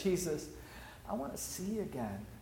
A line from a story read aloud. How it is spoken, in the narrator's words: He cries out and says